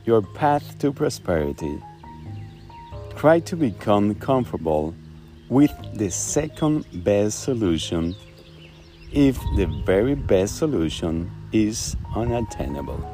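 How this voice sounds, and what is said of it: Spanish-accented English. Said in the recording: “you never have heard his quotes in Spanglish accent.”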